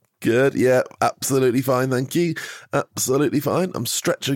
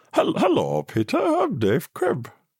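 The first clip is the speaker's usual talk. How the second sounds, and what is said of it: Swedish Chef crossed with Kermit voice. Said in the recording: “It's like the child of Swedish Chef and Kermit... Swedish Frog... his bloody Swedish Frog impression”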